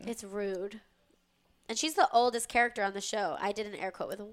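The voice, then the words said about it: Congested, stuffy-nosed voice. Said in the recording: “I have to blow my nose ... I have a little bit of a cold”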